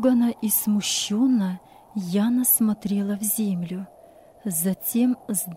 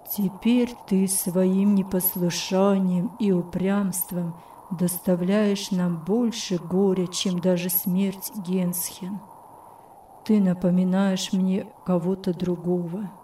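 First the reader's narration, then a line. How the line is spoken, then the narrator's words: Sad tone. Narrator (Russian): печальным тоном сказал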